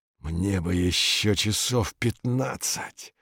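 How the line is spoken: Mumble. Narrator (Russian): бормочет Витька

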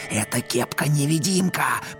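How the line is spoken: Hissing. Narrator (Russian): прошипел он

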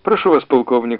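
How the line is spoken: Plain. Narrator (Russian): сказал Андрей

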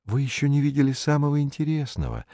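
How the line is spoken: Soft interruption. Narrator (Russian): мягко остановил его комментатор

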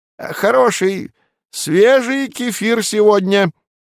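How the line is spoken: Loud. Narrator (Russian): произнес он громко

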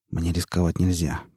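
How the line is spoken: Mutter. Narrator (Russian): пробормотал он

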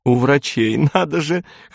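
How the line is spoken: Laughing loudly. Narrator (Russian): хохотала

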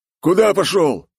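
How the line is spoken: Barked again. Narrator (Russian): Снова рявкнул

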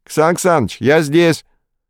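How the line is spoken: Joyful shouting, several voices. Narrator (Russian): На улице радостно заорали в несколько голосов

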